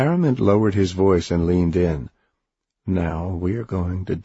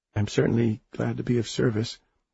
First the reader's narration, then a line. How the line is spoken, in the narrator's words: she said meekly